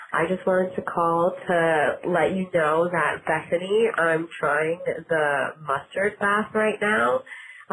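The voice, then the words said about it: Voice sounding sick. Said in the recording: “as you can tell from my voice, I'm quite under the weather.”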